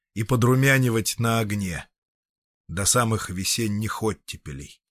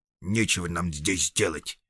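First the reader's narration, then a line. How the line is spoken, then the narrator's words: Grumbling dwarf. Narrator (Russian): проворчал гном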